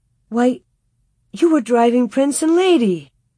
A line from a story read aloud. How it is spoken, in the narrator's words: She exclaimed